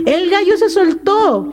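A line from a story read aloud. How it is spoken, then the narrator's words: Shouted. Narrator (Spanish): gritó mi amigo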